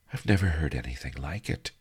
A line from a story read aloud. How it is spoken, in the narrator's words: she sighed